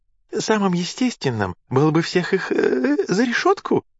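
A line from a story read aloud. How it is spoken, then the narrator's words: Cheerful suggestion. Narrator (Russian): радостно предположил Амур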